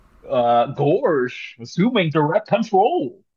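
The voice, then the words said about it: Goofy cartoon voice impression. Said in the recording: “what's your Goofy impression? ... The inclusion of the Gorsh really sold it. ... That was a quality impression”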